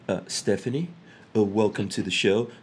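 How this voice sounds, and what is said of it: Low, deliberately sexy voice. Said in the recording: “Did you notice how I went into my sexy voice there? ... for the ladies, I could take it down and really get into the sexy”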